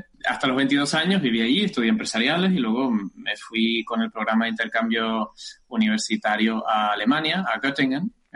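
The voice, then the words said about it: Canary Islands Spanish accent. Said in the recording (Spanish): “Como delata mi acento, espero que me siga delatando... soy canario”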